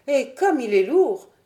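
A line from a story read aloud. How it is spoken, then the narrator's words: Straining exclamation. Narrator (French): s'écria-t-elle en essayant de le soulever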